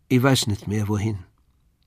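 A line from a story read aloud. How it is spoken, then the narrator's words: Toneless, flat voice. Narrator (German): sagte sie tonlos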